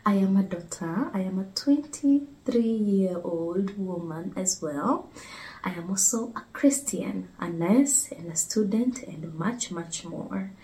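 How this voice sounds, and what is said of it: Kenyan English accent. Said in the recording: “I am also a Kenyan. I don't know if some of you have picked up on my accent. It would be very hard not to pick up on it.”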